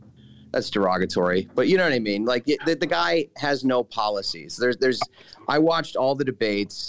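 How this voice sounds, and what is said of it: Usual voice. Nothing is said of it.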